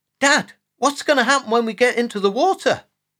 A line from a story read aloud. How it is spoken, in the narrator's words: Jack asked in a worried voice